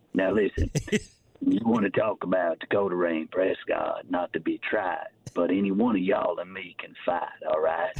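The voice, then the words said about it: Imitates another person's voice. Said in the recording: “famous Jerry impersonator on social media ... It's pretty good.”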